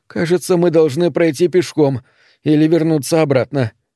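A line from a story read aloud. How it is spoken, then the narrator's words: Moan. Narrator (Russian): простонала она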